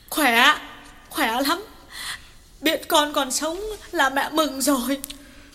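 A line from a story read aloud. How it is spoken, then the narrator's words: Sobbing, choked reply. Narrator (Vietnamese): Bà Lương sụt sùi mãi mới trả lời được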